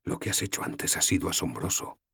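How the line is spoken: Whispered. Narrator (Spanish): susurré

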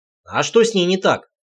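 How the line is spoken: Snort. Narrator (Russian): хмыкнул я

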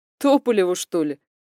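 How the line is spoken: Snort. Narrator (Russian): хмыкнул Никита

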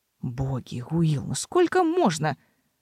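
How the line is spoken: Irritated mutter. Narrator (Russian): раздраженно пробормотал канцлер себе под нос

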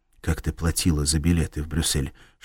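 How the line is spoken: Whisper. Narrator (Russian): шепнул он Кларе

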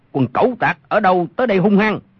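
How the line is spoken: Shouted from darkness. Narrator (Vietnamese): Trong bóng tối có một người quát lên

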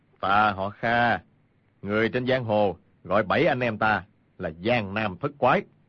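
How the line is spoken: Cold speech. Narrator (Vietnamese): Kha Trấn Ác lạnh lùng nói

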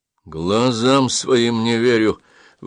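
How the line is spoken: Grumbling. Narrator (Russian): ворчал пролаза

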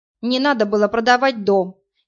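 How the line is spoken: Angry. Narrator (Russian): сердито сказала Марина

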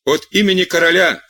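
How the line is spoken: Shouted. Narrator (Russian): кричал один

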